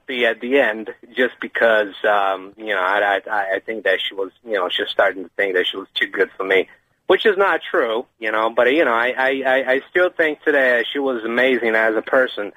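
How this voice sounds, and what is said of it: American accent. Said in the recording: “I couldn't work out exactly where in America his accent was.”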